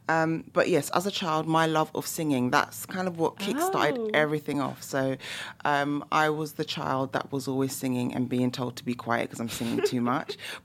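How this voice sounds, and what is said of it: London English accent. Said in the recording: “you can probably hear by my accent as well. I'm from the UK. So I'm from London, England.”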